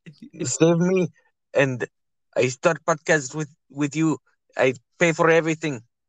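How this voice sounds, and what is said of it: Poor imitation of another person's accent. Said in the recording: “that's a terrible fucking Khabib accent”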